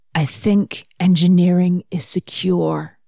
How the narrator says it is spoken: said hoarsely

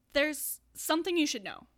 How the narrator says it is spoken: Neil blurts out, still distracted by Andrew's mouth

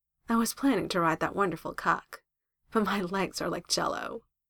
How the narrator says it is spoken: chuckles

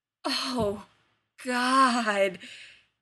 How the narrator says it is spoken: he groans, a guttural moan

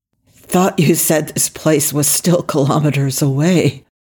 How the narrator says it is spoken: he croaked

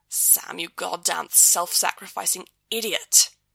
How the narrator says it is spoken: Dean mutters

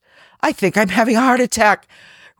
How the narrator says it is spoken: Rodney gasped

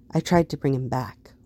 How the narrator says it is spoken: Voss said quietly

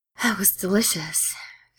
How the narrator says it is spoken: Steed sighs

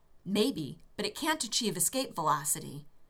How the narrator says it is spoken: Rodney said triumphantly

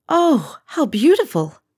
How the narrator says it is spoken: Deanna exclaimed, awed by the display before her and the artistry that must have gone into it

